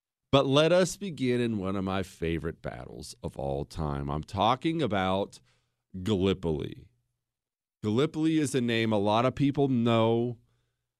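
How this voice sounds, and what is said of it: Slightly off, sick-sounding voice. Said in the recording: “limped into here today with a bit of a sickness ... my voice is a little off”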